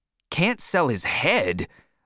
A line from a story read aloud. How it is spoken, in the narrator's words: I cried angrily